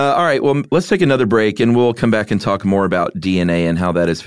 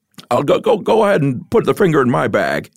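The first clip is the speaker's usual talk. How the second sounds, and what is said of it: Imitates another person's voice. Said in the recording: “do a Jimmy Stewart Yeti impression ... You nailed it”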